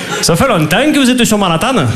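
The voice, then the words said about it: Put-on southern French accent. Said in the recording (French): “avec l'accent du Midi”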